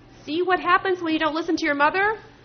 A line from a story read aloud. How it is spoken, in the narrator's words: Cho chased me, shouting